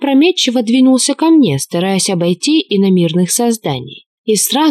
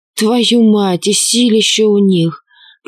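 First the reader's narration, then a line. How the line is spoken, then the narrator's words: Groaning while getting up. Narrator (Russian): Простонал лингвист, поднимаясь на ноги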